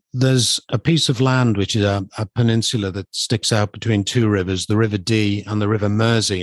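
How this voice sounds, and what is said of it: British accent. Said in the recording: “you're from the UK because we mentioned across the pond, and they can hear your accent.”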